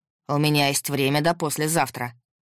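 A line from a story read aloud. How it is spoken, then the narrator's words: Steely voice. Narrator (Russian): стальным голосом ответил Максим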